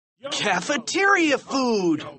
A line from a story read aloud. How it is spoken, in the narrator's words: they shouted